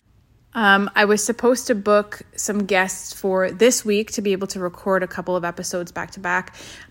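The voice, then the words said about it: Slightly sick-sounding voice. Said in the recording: “Both the kids got nailed with the sickness. I don't know if you can hear it in my voice, but I'm feeling a little bit off too.”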